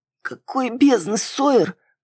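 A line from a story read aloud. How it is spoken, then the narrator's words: Rasping. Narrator (Russian): прохрипела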